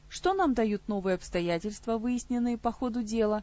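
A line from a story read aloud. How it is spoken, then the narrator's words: Calm spirit. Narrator (Russian): спокойно продолжил свою мысль дух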